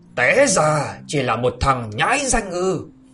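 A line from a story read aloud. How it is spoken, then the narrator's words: Angry ringing shout. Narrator (Vietnamese): Lão giận dữ mà quát vang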